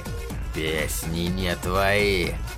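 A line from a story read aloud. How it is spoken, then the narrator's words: Growling. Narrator (Russian): прорычал он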